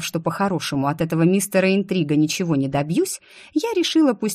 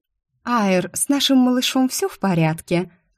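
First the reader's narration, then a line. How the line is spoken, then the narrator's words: Sweet voice, stressing word. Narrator (Russian): Ласковым голоском с нажимом на слове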